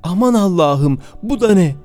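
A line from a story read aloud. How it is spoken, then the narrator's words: Shouted. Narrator (Turkish): diye bağırdı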